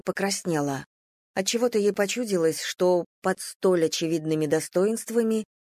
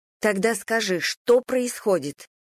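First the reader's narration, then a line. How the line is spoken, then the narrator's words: Rather angry question. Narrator (Russian): довольно зло спросила Надя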